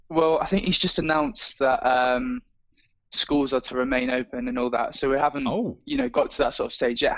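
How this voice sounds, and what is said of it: English accent. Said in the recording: “I'm detecting a little bit of an accent ... No, I'm from England.”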